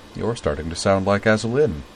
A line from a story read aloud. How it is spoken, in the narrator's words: said dryly